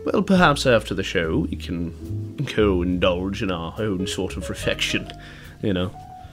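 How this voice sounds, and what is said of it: Fake posh English accent. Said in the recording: “my pseudo-English accent”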